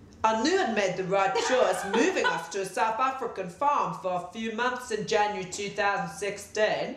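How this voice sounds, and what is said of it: Put-on South African accent. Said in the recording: “Now we can do our South African accents ... How do you do it? It's South Africa.”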